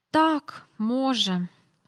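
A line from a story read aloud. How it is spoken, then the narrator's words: Soft sighing. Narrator (Ukrainian): сказав Майкл, тихенько зітхнувши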